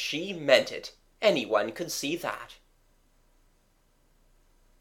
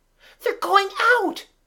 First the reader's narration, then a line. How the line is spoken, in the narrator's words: screamed Kathleen